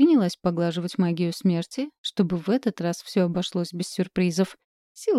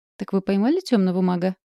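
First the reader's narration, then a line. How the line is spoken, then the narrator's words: Chuckling. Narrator (Russian): Муж хохотнул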